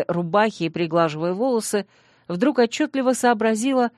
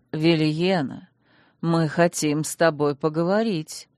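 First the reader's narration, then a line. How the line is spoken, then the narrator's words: Gentle. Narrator (Russian): мягко произнес один из магистров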